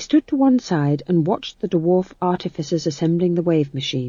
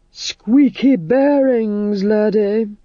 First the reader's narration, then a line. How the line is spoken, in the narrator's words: groaned Vitola